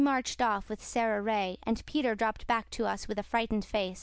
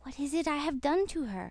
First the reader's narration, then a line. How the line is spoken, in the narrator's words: he whispered